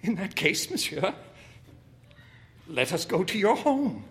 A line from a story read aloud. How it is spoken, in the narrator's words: said, laughing shakily